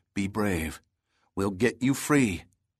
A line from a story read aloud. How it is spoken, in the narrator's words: said softly